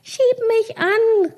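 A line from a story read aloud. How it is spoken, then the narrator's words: Calling out. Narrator (German): rief sie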